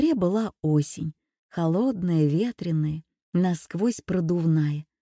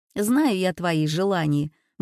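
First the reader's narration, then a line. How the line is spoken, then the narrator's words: Grumbling. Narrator (Russian): бурчала Юля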